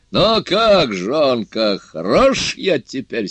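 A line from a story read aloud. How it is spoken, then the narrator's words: Laughing question. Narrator (Russian): спросил, смеясь волшебник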